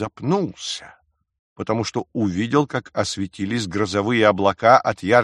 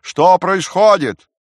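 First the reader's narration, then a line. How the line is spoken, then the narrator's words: Shouted through cupped hands. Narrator (Russian): Маляриус сложив руки рупором, закричал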